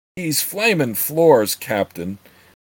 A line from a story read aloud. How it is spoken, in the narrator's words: the lean man exclaimed